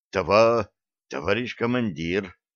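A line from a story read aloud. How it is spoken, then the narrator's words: Quiet repetition. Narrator (Russian): Тихо повторил он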